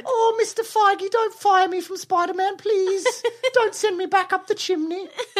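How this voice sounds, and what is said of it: Imitates a young British boy's voice. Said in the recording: “our Tom Holland impersonation who plays Spider-Man ... That's not what he sounds like ... he's like a little British boy”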